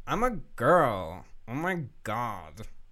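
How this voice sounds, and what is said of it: Exaggerated girly voice, same inflection. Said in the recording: “my impression of a girl? ... This is my girl impression. ... You just say oh my god in a variety of not even a variety, just the exact same inflection every time.”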